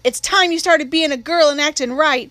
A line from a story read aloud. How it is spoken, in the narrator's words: Jim hollered